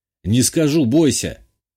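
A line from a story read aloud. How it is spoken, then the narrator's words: Snort. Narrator (Russian): Хмыкнул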